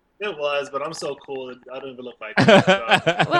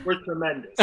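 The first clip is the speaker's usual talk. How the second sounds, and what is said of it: Imitates another person's voice. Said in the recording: “Was that your Trump impression?”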